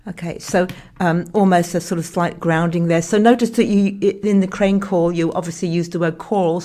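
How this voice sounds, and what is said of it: Speaker's own noticeable accent. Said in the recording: “My accent, sorry.”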